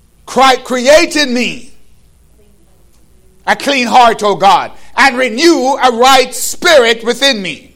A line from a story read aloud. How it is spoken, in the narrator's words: David cried out